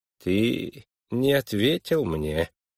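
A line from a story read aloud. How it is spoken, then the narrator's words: Smooth, insinuating tone. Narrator (Russian): вкрадчиво продолжал Твиссел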